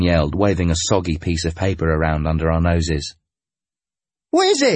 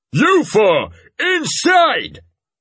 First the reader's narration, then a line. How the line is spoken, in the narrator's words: He roared